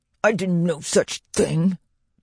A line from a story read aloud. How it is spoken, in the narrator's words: Dewdrop spat back